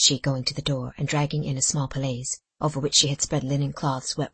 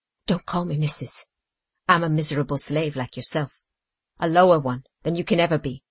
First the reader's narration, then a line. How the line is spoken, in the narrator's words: said she bitterly